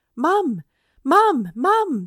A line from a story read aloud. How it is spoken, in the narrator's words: called as they came panting up to her with big, surprised eyes